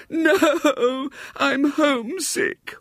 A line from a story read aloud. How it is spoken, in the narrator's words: wailed the little girl